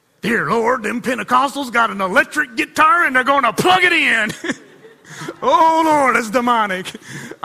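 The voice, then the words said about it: Put-on Southern accent. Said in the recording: “I had a southern accent just now”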